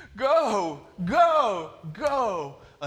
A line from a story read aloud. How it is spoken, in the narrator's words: running by his side, screaming